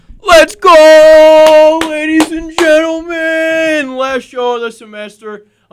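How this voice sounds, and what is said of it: Screaming, very loud voice. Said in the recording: “I'm screaming ... it hurt my ears”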